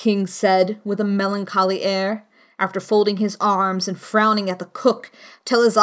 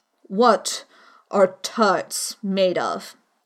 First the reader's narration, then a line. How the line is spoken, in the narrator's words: He said in a deep voice